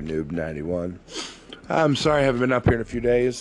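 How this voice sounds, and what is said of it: Sick, congested voice cutting out. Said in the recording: “I've been sick here lately ... I absolutely almost had no voice ... my nose is running right now. My voice is in and out. I'm coughing”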